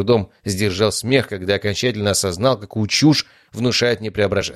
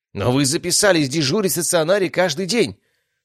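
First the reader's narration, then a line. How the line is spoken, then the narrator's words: Exclamation. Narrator (Russian): воскликнул главный лекарь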